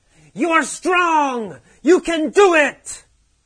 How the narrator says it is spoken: the teacher yells

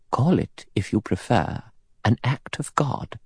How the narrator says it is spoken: Emily Brent said quietly

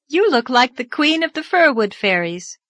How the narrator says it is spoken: called Anne merrily

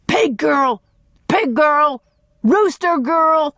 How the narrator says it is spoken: Dan shouted once more

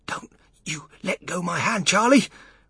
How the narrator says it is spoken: whispered Grandpa Joe

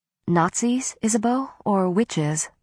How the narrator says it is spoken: I asked quietly, fearing the worst

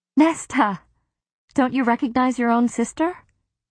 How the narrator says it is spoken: Elaine gasped

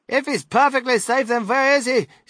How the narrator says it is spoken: snapped Mrs

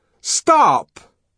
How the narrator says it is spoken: called the savage in a loud and ringing voice

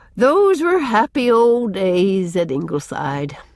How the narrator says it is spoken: said Susan with a sigh

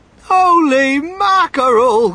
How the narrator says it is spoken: cried Mr

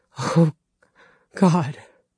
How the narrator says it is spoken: Dale rasped

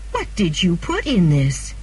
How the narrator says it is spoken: cried

